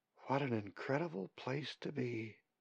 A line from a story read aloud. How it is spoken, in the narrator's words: she says softly to herself